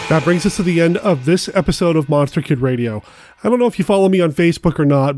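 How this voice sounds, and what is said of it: Sick, congested-sounding voice. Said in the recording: “the nasty cold that I got last week. You can probably hear it in my voice. I'm still fighting the tail end of it off”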